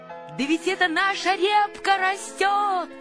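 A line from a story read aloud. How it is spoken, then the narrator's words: Shouting. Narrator (Russian): закричал Павлик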